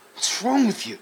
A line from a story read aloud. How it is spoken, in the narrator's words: He sputtered